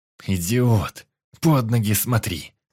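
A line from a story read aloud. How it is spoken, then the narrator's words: Irritated growl. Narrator (Russian): С раздражением зарычал я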